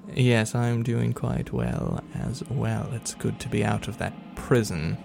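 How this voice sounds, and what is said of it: Put-on British accent, not Cockney. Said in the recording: “It's not a Cockney accent, it's just a British accent”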